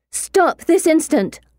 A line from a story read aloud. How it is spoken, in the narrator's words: I shout